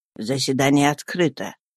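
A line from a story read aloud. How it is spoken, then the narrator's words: Casual, low voice. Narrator (Russian): проговорив небрежно и вполголоса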